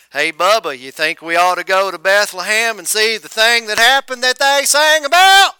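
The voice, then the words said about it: Put-on Southern US accent. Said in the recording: “I don't know if they had a southern accent, but Judea is in the south.”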